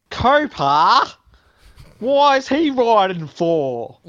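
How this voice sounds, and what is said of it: Convincing put-on Australian accent. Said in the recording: “An Aussie accent. ... Yeah, a great Aussie accent. ... not Aussie, is she? ... Very impressive. Very impressive. ... But still good.”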